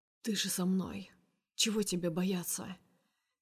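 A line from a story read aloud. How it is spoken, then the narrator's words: Quiet reply. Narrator (Russian): Так же негромко отвечает Герман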